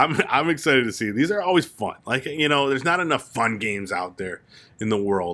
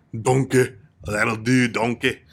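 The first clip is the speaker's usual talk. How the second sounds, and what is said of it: Imitates the cartoon ogre Shrek. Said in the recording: “that's my classic Shrek impression,”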